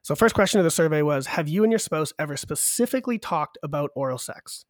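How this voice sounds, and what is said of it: Sick voice from a cold. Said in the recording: “I'm sick, by the way. So if my voice sounds weird... I got this cold over Christmas, and it just does not want to go away.”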